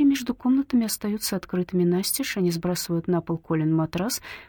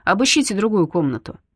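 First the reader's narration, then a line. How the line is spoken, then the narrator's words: Loud command. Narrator (Russian): Он громко приказывает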